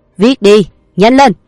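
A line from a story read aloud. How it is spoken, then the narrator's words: Shouted. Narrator (Vietnamese): tên kia quát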